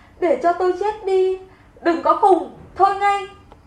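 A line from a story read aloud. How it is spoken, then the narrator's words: Wailing sobs. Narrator (Vietnamese): gào khóc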